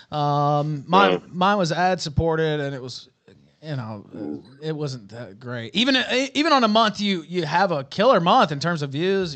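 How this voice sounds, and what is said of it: Southern US accent. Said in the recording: “do I detect a southern accent there? Are you from Alabama, Georgia, something like that?”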